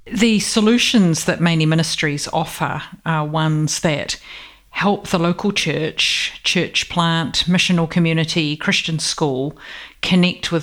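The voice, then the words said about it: New Zealand accent. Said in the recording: “born in New Zealand but lived in Australia for a long time ... you've still got that lovely accent”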